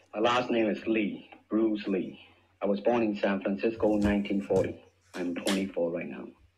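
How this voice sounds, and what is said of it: Accented but understandable English. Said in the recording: “he has an accent, yes. Can we understand them? Yes.”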